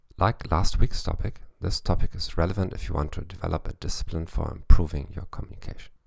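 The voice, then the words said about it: English with a German accent. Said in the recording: “in English with a German accent”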